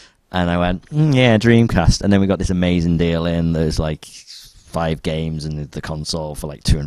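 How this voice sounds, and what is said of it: Usual voice. Nothing is said of it.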